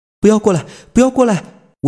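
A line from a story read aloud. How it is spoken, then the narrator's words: Terrified screaming. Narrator (Chinese): 我惊恐的大叫着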